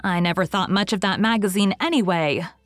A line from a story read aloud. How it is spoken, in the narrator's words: said Diana hotly